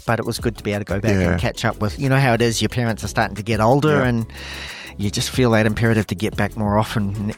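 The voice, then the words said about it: New Zealand accent. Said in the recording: “the strange accent. originally a Kiwi, been in Australia for many years”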